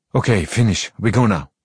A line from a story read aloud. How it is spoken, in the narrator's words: Amra says sharply